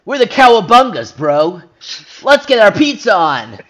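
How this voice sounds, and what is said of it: Exaggerated cartoon character voice. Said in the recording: “that impression is indiscernible from, like, my Sonic the Hedgehog impression”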